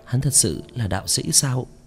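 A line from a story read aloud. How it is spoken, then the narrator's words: Muttering. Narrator (Vietnamese): nàng khôi phục tinh thần, lẩm bẩm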